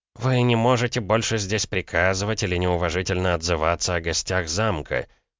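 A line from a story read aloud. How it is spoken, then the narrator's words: Through gritted teeth. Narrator (Russian): процедил Савинов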